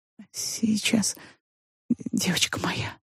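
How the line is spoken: Muttered. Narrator (Russian): пробормотала она

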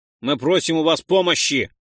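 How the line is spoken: Shouted. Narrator (Russian): прокричал Ролдан

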